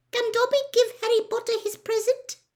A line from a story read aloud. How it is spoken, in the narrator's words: squeaked tentatively